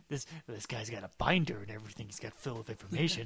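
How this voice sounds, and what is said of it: Poor imitation of another person's voice. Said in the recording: “my terrible Jackson impression”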